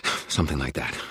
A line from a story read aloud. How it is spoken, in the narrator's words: I panted